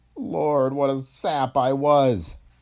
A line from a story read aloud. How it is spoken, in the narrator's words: Tracy groaned